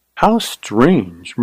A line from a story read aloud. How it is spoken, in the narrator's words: murmured Carly